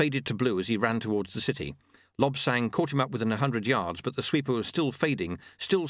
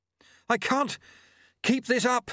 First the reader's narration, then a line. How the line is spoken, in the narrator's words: he panted, running after Lutse